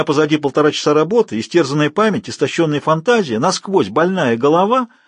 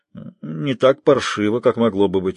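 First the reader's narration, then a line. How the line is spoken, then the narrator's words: Grumble. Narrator (Russian): буркнул он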